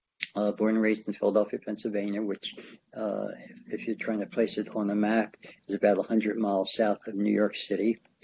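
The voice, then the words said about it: American accent, not British. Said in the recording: “you can tell from my accent that I'm not from Scotland, or I'm not from England, not from the UK.”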